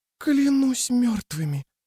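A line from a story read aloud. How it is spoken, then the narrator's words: Hoarse rasp. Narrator (Russian): прохрипела Рикки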